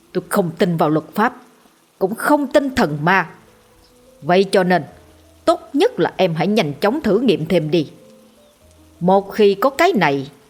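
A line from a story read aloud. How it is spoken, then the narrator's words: Harsh gritted voice. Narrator (Vietnamese): Hắn ta gằn giọng nói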